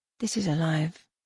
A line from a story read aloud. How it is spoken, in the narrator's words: whispered